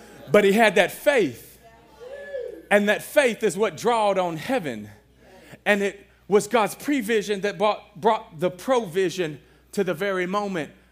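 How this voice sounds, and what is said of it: Shouting, strained preaching voice. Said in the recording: “I feel like I'm losing my voice again ... I'm going to have to stop shouting at y'all so much”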